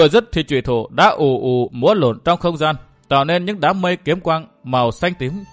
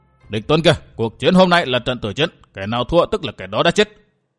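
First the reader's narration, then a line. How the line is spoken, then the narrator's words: Ferocious roar. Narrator (Vietnamese): Châu Kiếm Hồn gầm như hổ đói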